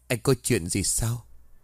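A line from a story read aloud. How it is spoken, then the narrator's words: Sighing reply. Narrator (Vietnamese): Anh Thiện thở dài trả lời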